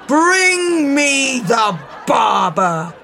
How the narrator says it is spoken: bellowed the king

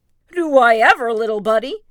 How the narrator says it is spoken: Tigger exclaimed

